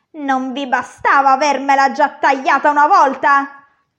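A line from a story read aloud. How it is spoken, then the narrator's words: Dwarf yelling. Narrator (Italian): urlò il nano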